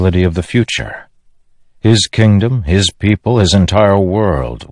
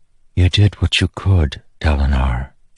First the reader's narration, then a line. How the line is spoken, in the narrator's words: whispered